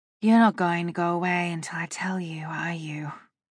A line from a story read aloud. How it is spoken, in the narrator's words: I sighed